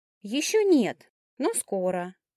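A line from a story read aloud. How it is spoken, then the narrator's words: Brisk confirmation. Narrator (Russian): также бодро подтвердил голос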